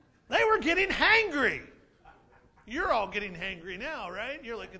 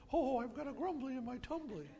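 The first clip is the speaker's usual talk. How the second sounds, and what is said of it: Winnie the Pooh impression. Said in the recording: “best Winnie the Pooh imitation.”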